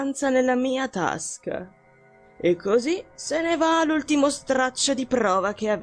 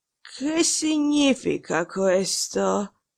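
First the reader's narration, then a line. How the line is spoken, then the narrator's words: Hoarse voice. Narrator (Italian): dire con voce rauca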